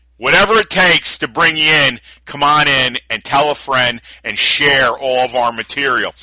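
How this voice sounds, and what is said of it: Tough New York accent. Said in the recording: “your tough New York accent”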